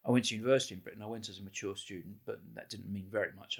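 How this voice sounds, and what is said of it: British accent. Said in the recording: “as you can hear from my accent, I grew up in Britain.”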